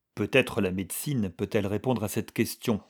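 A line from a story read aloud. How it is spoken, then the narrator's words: Plain. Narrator (French): dit Bach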